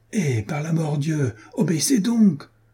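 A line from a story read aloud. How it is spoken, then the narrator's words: Shouting. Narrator (French): cria à son tour Jean de Werth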